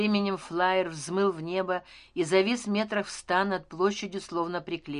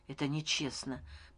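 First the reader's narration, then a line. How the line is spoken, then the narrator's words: Whisper. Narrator (Russian): прошептал Леон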